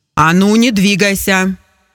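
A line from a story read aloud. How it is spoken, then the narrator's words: Menacing male shout. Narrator (Russian): грозно крикнул мужчина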